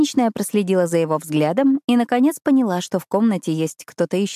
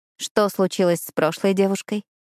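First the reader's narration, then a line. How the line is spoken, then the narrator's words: Plain. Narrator (Russian): спросила я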